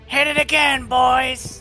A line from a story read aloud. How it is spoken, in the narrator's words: he shouts out